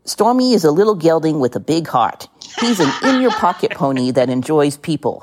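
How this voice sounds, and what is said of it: Put-on New Jersey accent. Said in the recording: “I'm going to read it in my version of a Jersey accent.”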